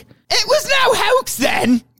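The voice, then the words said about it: Put-on Sheffield British accent. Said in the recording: “That's a solid British accent. That's a specifically a Sheffield accent.”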